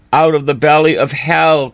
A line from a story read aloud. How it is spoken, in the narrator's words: cried I